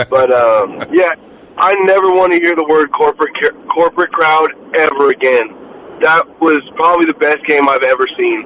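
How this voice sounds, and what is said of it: Hoarse, worn-out voice. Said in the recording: “I went to the game, my voice is gone”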